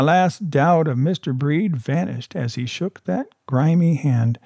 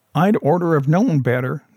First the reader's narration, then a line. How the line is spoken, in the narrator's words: said